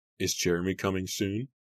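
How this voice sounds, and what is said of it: Pitiful small voice. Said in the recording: “in a pitiful small voice”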